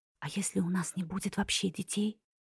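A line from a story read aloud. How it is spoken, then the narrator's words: Whispered. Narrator (Russian): прошептала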